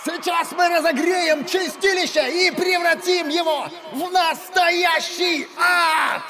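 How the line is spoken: Loud shout, out of breath. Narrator (Russian): В голос закричал солист, переводя дыхание после песни, короткой, но импульсивной

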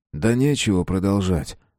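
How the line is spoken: Quiet speech. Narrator (Russian): тихо сказал Нияз

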